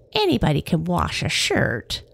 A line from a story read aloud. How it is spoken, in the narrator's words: she sneered